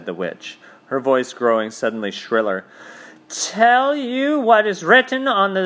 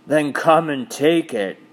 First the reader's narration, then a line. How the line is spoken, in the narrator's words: said the bull with the man's head with a great bellowing voice